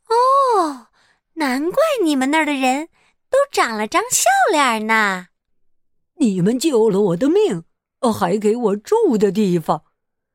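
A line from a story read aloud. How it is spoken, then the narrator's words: Exclaiming with emotion. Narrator (Chinese): 他们感叹道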